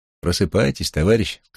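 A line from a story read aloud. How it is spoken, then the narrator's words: Plain. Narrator (Russian): сказала девушка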